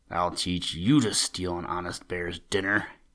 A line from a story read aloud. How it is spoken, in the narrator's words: he growled in his deep, grumbly-rumbly voice